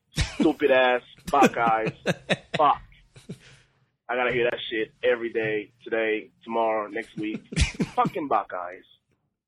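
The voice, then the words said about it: Possibly African accent. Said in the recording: “I'm assuming from the accent, it sounds like African, perhaps.”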